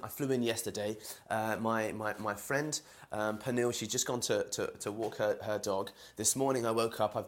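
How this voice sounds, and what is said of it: London English accent. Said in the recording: “I'm from London, as you can hear from my accent.”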